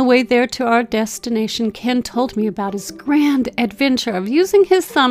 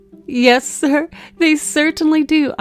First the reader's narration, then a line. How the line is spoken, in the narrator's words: responded with a giggle caught from his contagious cheerfulness